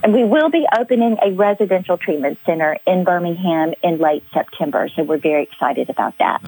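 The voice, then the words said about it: Slight Southern Alabama accent. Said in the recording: “Birmingham, Alabama, which is the state that I live in, which you may or may not can tell if I happen to have an accent or not ... Just a little ... My y'alls come out kind of frequently”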